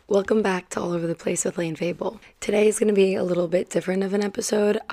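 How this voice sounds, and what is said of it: Tired, partly lost voice. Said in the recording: “You guys can probably hear how tired I am. ... my voice is, I feel like I half lost it last night.”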